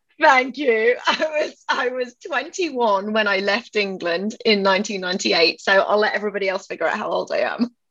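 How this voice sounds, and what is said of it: English accent. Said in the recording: “people hear my voice and they assume that I'm British ... my accent is from England”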